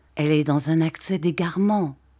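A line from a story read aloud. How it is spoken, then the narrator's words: Murmured in ear. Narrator (French): murmurai-je à l'oreille de M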